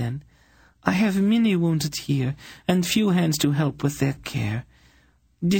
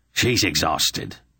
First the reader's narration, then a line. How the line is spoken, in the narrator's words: Belden snapped